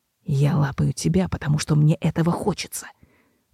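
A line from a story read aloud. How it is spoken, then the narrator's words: Hiss. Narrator (Russian): прошипел Себастьян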